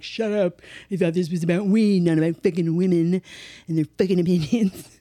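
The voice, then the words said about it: Dumb bro voice with speech impediment. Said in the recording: “That's your bro impression? ... a bro sounds like he's got some kind of weird impediment.”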